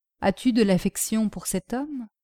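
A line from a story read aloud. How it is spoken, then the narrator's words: Murmur to oneself. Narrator (French): murmura-t-il à sa propre image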